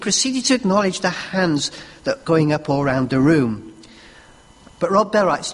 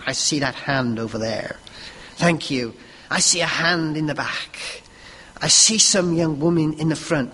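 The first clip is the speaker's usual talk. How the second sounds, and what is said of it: Attempted American accent. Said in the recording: “I need a nice American accent. I can't do American.”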